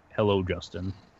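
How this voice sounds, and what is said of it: Very low, deep voice. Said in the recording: “in this really low voice,”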